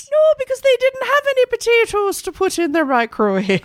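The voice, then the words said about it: Bad put-on Irish accent. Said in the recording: “terrible accent”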